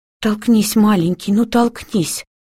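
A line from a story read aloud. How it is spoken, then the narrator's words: Pleading. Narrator (Russian): взмолилась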